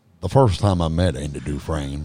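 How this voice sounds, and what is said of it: Imitates another person's voice. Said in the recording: “give me your best Morgan Freeman impersonation. ... That's not bad. That's not bad.”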